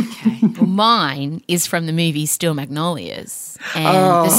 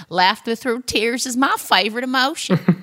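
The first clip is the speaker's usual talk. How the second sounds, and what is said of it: Put-on accent quoting a film line. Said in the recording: “Beautiful accent work”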